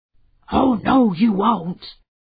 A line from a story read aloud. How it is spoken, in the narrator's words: growled Dog